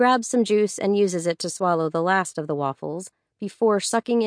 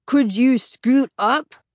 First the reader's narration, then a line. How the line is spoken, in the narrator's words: snaps back, speaking around mouthfuls